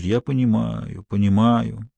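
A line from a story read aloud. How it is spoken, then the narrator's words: Soft murmur. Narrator (Russian): Дон Мигель тихонько бормочет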